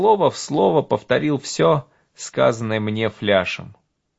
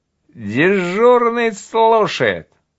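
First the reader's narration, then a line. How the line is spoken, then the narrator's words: Drunken voice. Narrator (Russian): Мне ответили пьяным голосом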